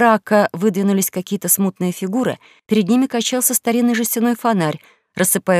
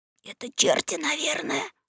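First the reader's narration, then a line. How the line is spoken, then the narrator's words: Trembling whisper. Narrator (Russian): содрогаясь шепнул Гекельбери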